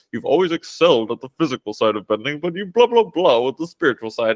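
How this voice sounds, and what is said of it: Impression of a show character. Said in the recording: “that's such a good impression”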